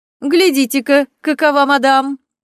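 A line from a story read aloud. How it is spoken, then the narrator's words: Commanding laughing maid. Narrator (Russian): засмеялась горничная, будто генерал перед войском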